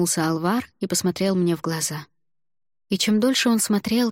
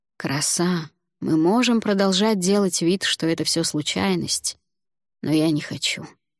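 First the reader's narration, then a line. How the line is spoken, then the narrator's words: Tired. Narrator (Russian): устало сказал Алвар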